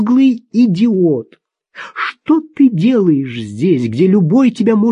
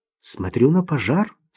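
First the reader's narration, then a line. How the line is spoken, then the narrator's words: Calm reply. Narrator (Russian): спокойно ответил Таунсенд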